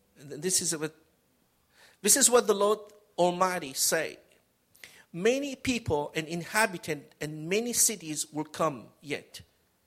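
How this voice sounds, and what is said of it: Spanish accent. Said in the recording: “suddenly my Spanish accent come out”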